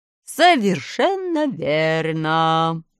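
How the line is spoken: Warm smiling reply. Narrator (Russian): отвечал человечек, ласково улыбаясь

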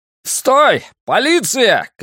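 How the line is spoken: Shouting. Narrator (Russian): крикнул я

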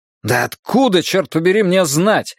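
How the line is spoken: Irritated exclamation. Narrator (Russian): раздраженно воскликнул я

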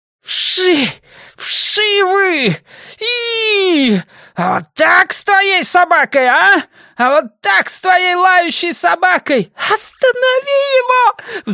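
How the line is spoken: Shrill shriek. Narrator (Russian): взвизгнула Диана

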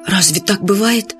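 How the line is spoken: Frightened question. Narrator (Russian): испуганно спросил Фадейк

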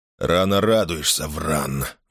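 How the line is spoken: Gloomy. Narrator (Russian): мрачно произнес Мейсон

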